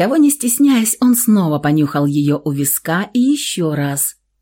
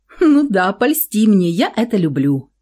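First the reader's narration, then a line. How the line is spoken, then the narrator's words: Nervous laugh. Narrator (Russian): нервно хохотнула она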